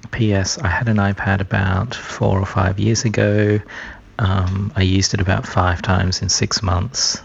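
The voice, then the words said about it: Whispering. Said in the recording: “I don't know why I'm whispering... he's whispering”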